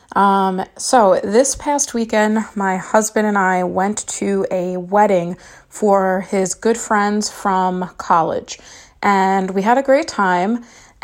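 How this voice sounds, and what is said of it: Slightly raspy voice. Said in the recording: “my voice sounded a little raspy”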